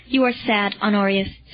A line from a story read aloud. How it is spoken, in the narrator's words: said Marcellus